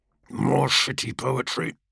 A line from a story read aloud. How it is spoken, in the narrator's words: Kargos murmured, doubting his own words even as he spoke them